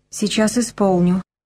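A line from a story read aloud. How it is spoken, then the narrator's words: Quiet. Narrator (Russian): тихо ответила Зося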